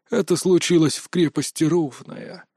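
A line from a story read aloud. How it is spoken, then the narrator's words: Calm report. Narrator (Russian): спокойно сообщил мастер Дае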